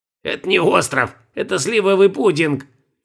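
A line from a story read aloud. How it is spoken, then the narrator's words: Scornful snort. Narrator (Russian): фыркнул Бальтазар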